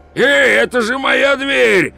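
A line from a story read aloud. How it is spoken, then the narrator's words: Yelling. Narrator (Russian): завопил Пузан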